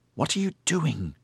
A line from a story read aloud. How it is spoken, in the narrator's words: Cansine hissed at Maxen